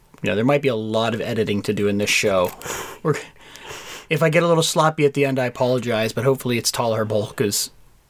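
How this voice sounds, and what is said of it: Scratchy, slightly sick-sounding voice. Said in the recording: “I'm a little bit sick, so my voice is not as good as it normally is ... we're both a little scratchy. We've been coughing a little”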